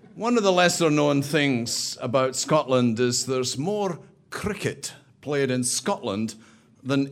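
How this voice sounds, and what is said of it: Scottish accent. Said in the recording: “people realize from the accent that I really do not originate from Chicagoland, and I'm Scottish”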